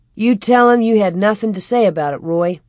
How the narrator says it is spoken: Almanzo answered

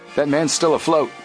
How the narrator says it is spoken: Frank shouted

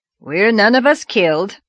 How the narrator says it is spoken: said Marilla grimly

